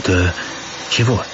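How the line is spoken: Quiet question. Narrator (Russian): тихо спросил управляющий

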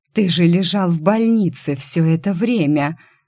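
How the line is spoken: Unrecognizable hoarse wheeze. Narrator (Russian): Вовсе неузнаваемым голосом просипела Алиса

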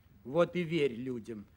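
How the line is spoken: Grumbling. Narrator (Russian): ворчала гусеница

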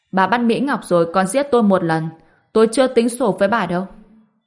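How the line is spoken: Loud laughing speech. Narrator (Vietnamese): Ngô Bình cười lớn nói

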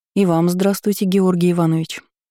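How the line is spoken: Calm but weak, feverish. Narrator (Russian): спокойно ответила, пересиливая очередной приступ слабости и ненормального жара

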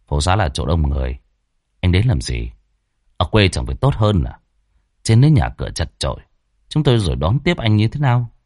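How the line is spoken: Cold. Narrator (Vietnamese): Thằng Quân chỉ lạnh lùng

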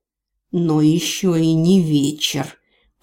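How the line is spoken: Bandit growling. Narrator (Russian): прорычал в ответ один из бандитов

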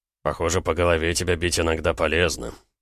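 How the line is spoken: Grumbling. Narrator (Russian): пробурчал Гаранин

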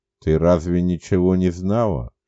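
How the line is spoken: Quiet whispered question. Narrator (Russian): тихо шепотом спросил я у Оли

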